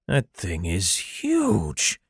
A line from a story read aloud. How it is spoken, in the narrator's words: muttered